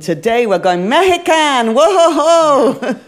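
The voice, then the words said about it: Bad put-on Mexican accent. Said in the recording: “Is that a bad accent? ... Yeah.”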